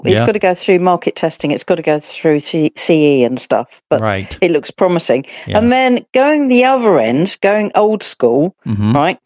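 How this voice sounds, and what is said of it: English accent. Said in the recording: “It's my English accent.”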